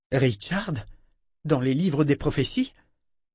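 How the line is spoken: Exclamation. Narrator (French): s'exclama Kalan

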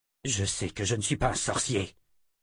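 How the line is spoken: Male grumble. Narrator (French): grogna-t-il

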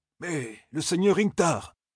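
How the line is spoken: Stunned breathless whisper. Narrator (French): souffla le renifleur, les yeux écarquillés de stupeur

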